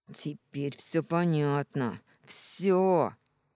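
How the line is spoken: Furious, through gritted teeth. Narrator (Russian): яростно процедил

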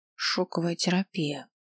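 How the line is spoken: Muttering. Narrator (Russian): пробормотала я

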